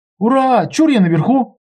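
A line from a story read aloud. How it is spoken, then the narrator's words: Shout. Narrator (Russian): закричал он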